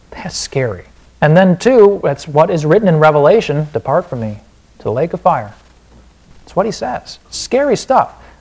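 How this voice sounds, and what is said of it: Wisconsin accent. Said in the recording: “there's my Wisconsin accent”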